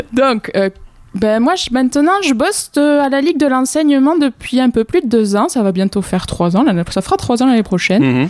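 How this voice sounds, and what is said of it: Southwestern French accent. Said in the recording (French): “comme vous pouvez peut-être l'entendre, l'accent il n'est pas forcément très très local... c'est le sud-ouest”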